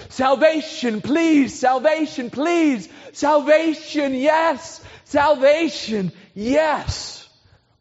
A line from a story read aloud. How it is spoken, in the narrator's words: they're saying